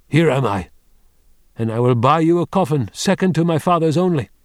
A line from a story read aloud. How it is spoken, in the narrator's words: Wang Lung said loudly in his ear